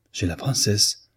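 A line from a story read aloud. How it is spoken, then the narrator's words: Exclamation. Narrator (French): s'écria Victor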